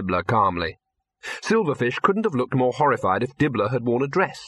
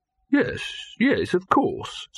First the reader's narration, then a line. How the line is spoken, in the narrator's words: said Silverfish soothingly